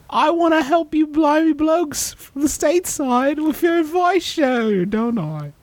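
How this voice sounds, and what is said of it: Put-on British accent. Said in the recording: “they knew I was a Brit, didn't they? ... You sound exactly like Russell Brand. Exactly the same.”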